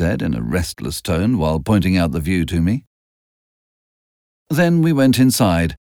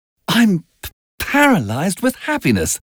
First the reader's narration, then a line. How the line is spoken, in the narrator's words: she cried